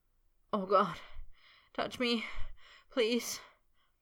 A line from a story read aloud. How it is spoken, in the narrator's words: Potter moaned